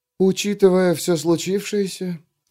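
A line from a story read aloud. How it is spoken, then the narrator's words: Quiet. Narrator (Russian): тихо проговорила она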